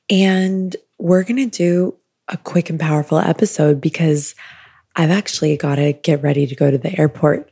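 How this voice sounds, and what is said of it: Groggy morning-sounding voice. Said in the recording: “I'm recording this for you in the morning ... my voice might sound a little morning-like”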